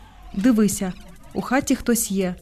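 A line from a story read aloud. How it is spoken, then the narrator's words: Whispered reply. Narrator (Ukrainian): так само пошепки відповів він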